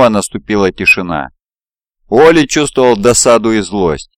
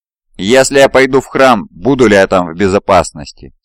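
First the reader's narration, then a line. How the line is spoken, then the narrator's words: Plain question. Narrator (Russian): спросил Уолли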